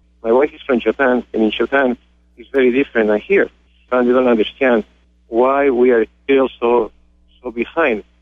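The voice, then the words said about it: Spanish accent in English. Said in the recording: “you can see from my accent, I'm not from this country, I'm from Spain”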